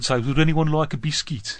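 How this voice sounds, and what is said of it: Attempted Birmingham (Brummy) accent. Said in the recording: “Birmingham accent ... That's as good as it gets”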